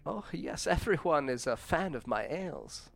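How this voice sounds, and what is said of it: Character voice with a put-on accent. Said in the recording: “You got to do the accent justice.”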